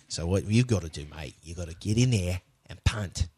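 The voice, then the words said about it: Put-on English accent. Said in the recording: “Are you sure he's not from England? What accent are you doing?”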